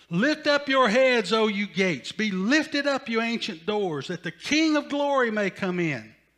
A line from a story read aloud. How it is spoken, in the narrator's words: David shouts out to the gatekeeper